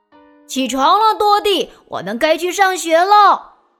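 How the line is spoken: Calling out. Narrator (Chinese): 小臭臭威尔逊……叫道

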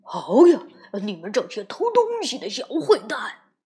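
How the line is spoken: Loud roar. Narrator (Chinese): 传来一声大吼

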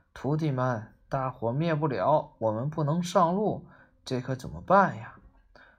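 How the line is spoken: Sighing. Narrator (Chinese): 唐僧叹了口气，说

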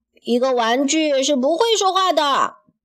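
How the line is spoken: Startled cry. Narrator (Chinese): 他惊叫起来

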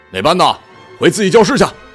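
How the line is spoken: Angry shout. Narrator (Chinese): 一老师对着山竹吼

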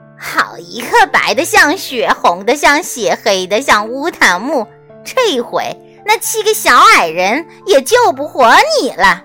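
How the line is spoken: Cruel laughing. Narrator (Chinese): 王后目光凶残地 笑道

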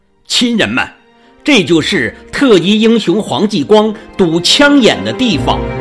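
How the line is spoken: Loud announcement. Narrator (Chinese): 领队 大声说

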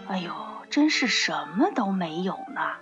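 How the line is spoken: Muttering. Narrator (Chinese): 她嘴里嘟囔着说

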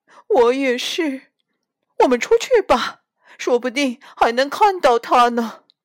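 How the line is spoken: Sobbing. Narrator (Chinese): 猪太太抽泣着说

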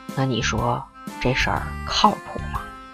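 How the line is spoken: Quiet, uncertain question. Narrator (Chinese): 韦爸爸 也有点吃不准，小声问

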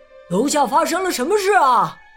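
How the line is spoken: Loud question. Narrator (Chinese): 斯普林格先生，他大声问

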